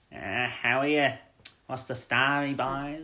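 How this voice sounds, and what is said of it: Rough Dublin accent. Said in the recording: “the rough Dublin accent”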